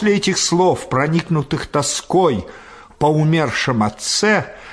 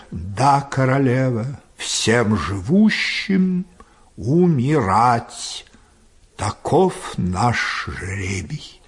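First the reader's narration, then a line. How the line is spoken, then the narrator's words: Reproachful, slow reply. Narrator (Russian): с упреком ответил, слегка покачивая головой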